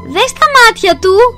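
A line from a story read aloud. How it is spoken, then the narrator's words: Shouted. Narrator (Greek): φώναξε η Κατερίνα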